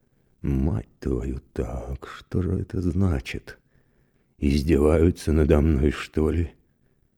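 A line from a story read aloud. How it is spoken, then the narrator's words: Muttering under breath. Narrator (Russian): Мировой вполголоса произносил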